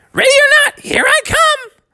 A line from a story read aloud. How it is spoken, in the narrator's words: he shouted out